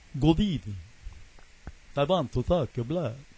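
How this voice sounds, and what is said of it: Bela Lugosi vampire impression. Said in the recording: “my Bela Lugosi impersonation”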